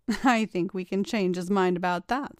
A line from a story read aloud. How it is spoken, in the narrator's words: said April